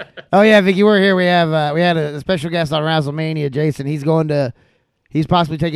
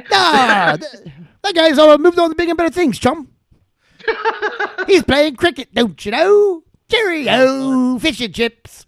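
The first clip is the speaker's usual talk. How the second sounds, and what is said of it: Put-on English accent. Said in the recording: “that brought out my English accent”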